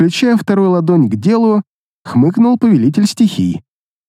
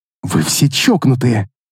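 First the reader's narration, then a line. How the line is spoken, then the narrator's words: Hissing. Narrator (Russian): прошипела Вендетта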